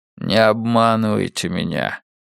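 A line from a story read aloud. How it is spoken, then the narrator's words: Quiet plea. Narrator (Russian): тихо попросил Эрик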